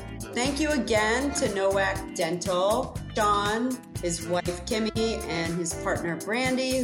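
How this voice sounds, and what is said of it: Usual voice. Nothing is said of it.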